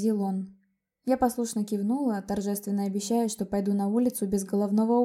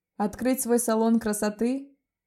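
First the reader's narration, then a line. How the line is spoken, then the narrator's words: Laughing. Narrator (Russian): засмеялся Леон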